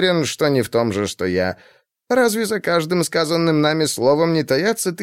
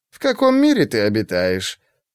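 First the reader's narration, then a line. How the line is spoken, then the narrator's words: Laughing. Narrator (Russian): Он снова засмеялся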